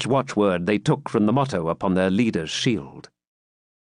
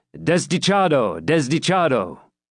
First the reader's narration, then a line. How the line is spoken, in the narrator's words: The opposite party shouted in answer